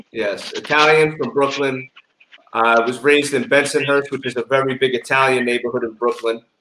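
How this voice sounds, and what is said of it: New York accent. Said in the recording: “What is your accent? ... Oh, I hear the New York.”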